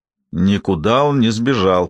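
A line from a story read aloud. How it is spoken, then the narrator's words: Mumbled while slurping soup. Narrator (Russian): пробурчал Эзер, прихлебывая суп с ложки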